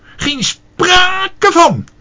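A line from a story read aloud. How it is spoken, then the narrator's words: Shrieking. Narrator (Dutch): gilde Leentje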